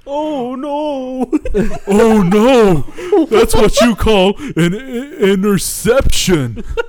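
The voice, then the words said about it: Cartoon character voice impression. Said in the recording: “That was a pretty good one. That was a pretty good impression.”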